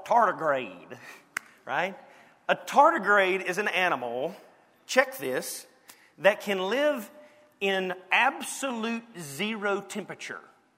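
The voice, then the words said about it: Southern American drawl. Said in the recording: “I'm pronouncing it wrong in my southern drawl.”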